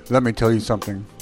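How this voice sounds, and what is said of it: Mock-serious deep voice. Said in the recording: “My serious voice. ... You sound Armenian.”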